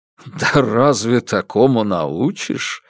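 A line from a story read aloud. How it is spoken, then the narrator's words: Laughing. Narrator (Russian): рассмеялся Куракин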